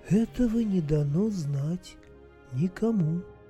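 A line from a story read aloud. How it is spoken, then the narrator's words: Calm and quiet. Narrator (Russian): так же спокойно и тихо произнесла птица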